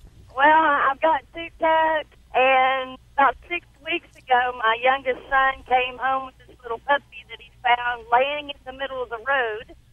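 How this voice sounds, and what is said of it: Southern American accent. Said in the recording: “Oh, I love the southern accent.”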